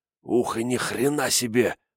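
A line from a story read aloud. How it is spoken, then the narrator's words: Hissed. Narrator (Russian): прошипел Кайташи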